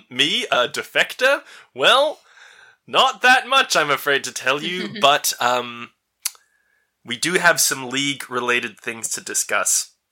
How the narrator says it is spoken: She chuckles and says

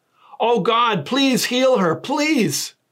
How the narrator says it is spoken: Moses cried to the Lord

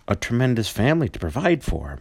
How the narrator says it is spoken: muttered Scrooge

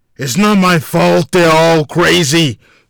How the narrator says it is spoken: Walter barked

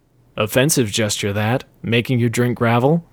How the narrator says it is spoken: said Lucy calmly

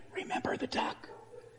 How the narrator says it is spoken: she whispered in his ear

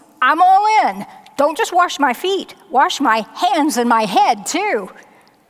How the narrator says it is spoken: exclaims

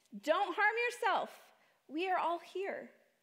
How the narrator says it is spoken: Paul shouted

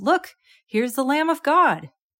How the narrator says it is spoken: John … he exclaimed

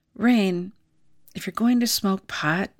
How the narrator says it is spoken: he said

